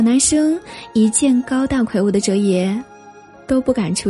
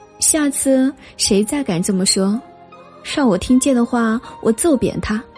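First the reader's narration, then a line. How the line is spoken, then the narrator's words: Sneering. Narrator (Chinese): 哲野冷笑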